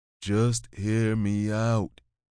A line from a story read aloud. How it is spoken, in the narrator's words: said slowly